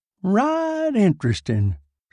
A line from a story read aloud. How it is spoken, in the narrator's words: said Bud Gregory and yawned